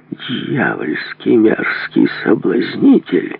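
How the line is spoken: Angry outburst. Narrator (Russian): злобно набросился на своего соперника

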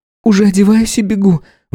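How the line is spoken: Carefully feigned exclamation. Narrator (Russian): воскликнула, пытаясь не переиграть и не спугнуть добычу

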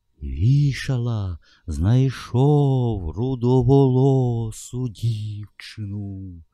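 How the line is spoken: Giant's thunderous voice. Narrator (Ukrainian): промовив велетень громовим голосом

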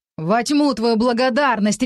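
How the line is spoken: Lord's barked command. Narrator (Russian): рявкнул повелитель

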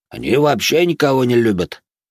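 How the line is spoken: Grumbling man. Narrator (Russian): проворчал какой-то мужик

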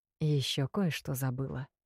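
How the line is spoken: Conspiratorial whisper. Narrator (Russian): напомнил император заговорщическим шепотом

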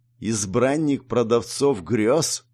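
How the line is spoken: Literal hiss, snake. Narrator (Russian): буквально прошипел змей

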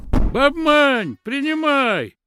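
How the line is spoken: Man shouting from behind gate. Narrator (Russian): кричал какой-то мужик из-за ворот

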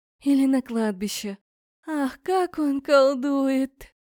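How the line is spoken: Dreamy sigh. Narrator (Russian): мечтательно вздохнула Эря

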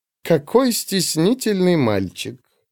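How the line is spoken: Snide remark. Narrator (Russian): ехидно бросила она

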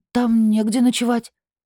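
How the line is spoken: Frightened repetition. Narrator (Russian): повторила испуганно

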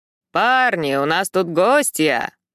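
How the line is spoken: Booming bass shout. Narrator (Russian): громогласно кричит здоровяк, сотрясая стены своим басом

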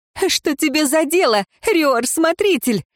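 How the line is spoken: Exclamation. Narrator (Russian): воскликнула Ирейн

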